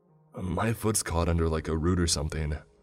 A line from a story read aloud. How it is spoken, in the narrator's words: Mitch said in a flustered tone